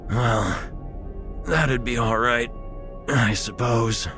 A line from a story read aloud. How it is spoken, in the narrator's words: wheezed